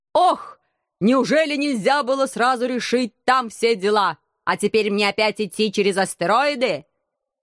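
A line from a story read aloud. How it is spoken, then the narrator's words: Angry whining. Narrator (Russian): Сердито законючил корабль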